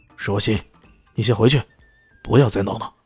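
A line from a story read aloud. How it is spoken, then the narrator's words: Low scolding. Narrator (Chinese): 叶恒良低声斥喝道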